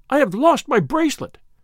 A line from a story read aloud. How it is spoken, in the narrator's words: she cried in Italian